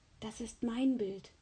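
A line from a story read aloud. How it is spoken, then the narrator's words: Whispering. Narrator (German): flüsterte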